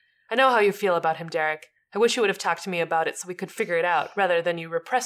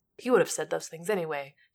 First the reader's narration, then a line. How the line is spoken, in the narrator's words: Derek mutters